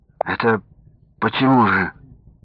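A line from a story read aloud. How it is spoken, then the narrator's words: Dejected voice. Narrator (Russian): упавшим голосом спросил Сергей Андреевич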